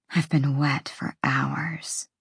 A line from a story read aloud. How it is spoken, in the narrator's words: she whispered